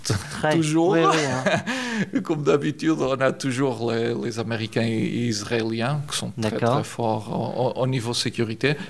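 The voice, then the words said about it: Portuguese accent speaking French. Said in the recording (French): “nos auditeurs entendent votre accent. ... Je viens du Portugal.”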